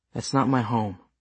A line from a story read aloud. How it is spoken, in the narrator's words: Helen said quietly but firmly